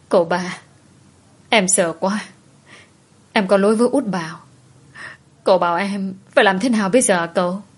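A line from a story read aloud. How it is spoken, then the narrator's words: Sobbing, crying. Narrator (Vietnamese): Cô nức nở òa khóc trước mặt của anh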